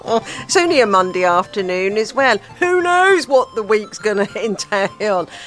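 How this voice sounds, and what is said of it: Usual voice. Nothing is said of it.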